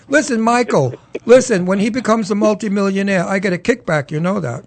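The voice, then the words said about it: Brooklyn accent. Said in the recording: “You bet your ass I'm from Brooklyn. Can't you hear the accent? ... I hear the accent.”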